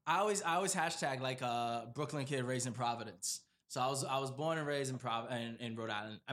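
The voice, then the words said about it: Accent unlike the host's. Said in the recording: “you got an accent and it's not like mine”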